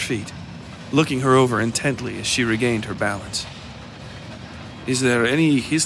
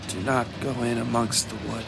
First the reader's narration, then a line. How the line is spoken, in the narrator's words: she mumbled to herself